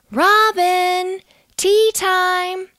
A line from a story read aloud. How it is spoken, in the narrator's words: called her, shouting